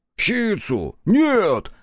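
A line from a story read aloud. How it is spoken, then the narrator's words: Roar. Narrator (Russian): взревел Соба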